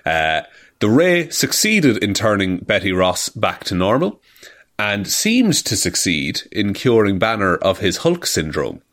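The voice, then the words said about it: Speaks with an accent. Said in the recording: “That's a tough it's word. Just, I'm proud. It's very tough, especially with my accent.”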